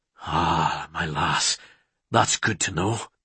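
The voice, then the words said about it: Male voice in a brogue. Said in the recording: “My lass, in that brogue.”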